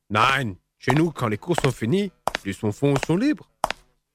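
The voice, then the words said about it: German accent in French. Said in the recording (French): “il vient d'où votre accent? ... vous êtes allemand d'origine, sûrement.”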